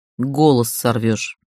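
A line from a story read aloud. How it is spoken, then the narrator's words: Cold, curt. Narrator (Russian): холодно припечатал он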